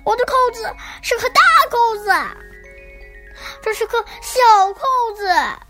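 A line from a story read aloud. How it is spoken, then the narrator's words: Loud cry, toad. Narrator (Chinese): 蟾蜍大声叫道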